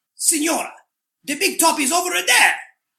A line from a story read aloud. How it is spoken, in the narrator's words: informed her gruffly